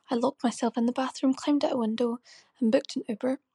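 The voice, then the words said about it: Irish accent. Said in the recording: “Love the accent. Where are you from? ... That's Ireland.”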